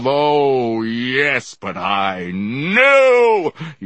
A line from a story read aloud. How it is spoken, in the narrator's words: he shouted, startling me